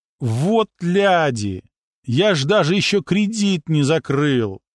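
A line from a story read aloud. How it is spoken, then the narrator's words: Drawn-out tearful moan. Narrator (Russian): протянул он со слезой в голосе, завершив этим стоном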